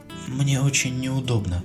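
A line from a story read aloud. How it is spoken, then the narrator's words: Quiet. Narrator (Russian): тихо продолжила она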